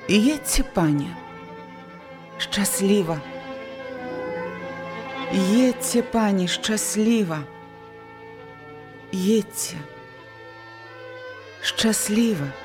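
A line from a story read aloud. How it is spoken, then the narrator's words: Quiet repeated words. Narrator (Belarusian): некалькі разоў яна ціха паўтарыла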